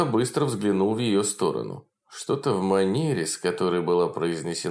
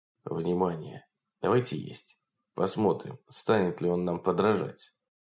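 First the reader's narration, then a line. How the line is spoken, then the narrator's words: Whisper. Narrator (Russian): Лорд сказал шепотом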